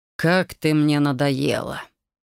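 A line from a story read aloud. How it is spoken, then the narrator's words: Irritated. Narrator (Russian): Раздраженно произнес его величество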